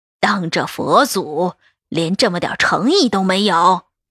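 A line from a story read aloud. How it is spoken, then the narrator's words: Cold voice from doorway. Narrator (Chinese): 赵老太太的冷声从门口传来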